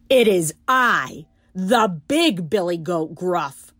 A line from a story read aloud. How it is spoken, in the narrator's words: said the billy goat his voice was as loud as the troll's